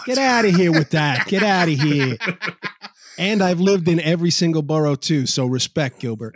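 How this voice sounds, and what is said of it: New York accent. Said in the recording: “Yo, you definitely got an accent.”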